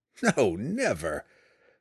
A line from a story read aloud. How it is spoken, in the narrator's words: Drizzt laughed